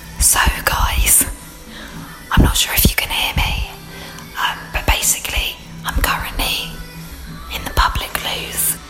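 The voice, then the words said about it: Whispering. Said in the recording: “hence why I'm whispering”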